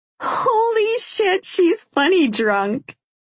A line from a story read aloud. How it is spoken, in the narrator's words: Grace says, laughing